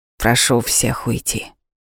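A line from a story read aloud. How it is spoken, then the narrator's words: Calm. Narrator (Russian): спокойно сказала Арманда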